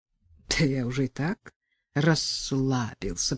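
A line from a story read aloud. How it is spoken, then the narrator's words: Mutter. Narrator (Russian): пробормотал Белов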